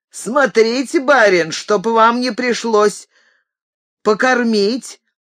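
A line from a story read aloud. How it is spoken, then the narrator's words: Shouting. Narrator (Russian): закричал рыжебородый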